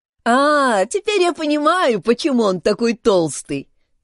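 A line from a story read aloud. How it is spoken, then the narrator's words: Laughing. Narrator (Russian): засмеялся Пип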